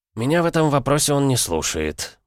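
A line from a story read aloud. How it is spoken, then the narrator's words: Gloomy. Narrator (Russian): мрачно скривил губы Брусникин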